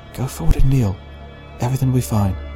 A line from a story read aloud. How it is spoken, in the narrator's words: she whispered